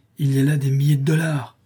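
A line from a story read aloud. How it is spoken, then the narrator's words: Exclamation. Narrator (French): s'écria Joey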